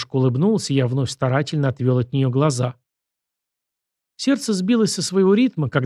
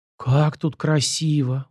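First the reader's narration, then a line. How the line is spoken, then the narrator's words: Breathless admiration. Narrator (Russian): выдохнула моя спутница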